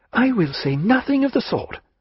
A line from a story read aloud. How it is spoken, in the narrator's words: cried Sophie